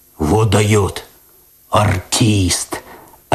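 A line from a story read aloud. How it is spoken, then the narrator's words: Admiring deep bass. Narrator (Russian): опять восхищенно пробасил кот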